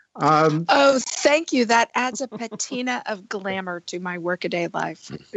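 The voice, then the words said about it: Hoarse, husky low voice. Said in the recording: “hoarse or speaking silkenly ... you sound a little bit like Tallulah Bankhead”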